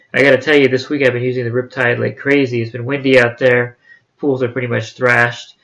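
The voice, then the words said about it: Slightly nasal, congested voice. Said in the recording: “You can hear in my voice that I'm a little nasally. My allergies have been acting up”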